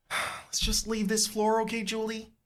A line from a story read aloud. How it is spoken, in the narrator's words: You moan